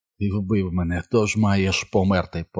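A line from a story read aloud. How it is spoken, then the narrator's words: Whispered. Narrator (Ukrainian): прошепотів Джордж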